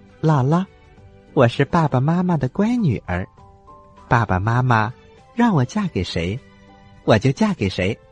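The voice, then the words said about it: Shy, quiet voice. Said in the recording (Chinese): “鼠女儿羞怯的低下头，她小声的说”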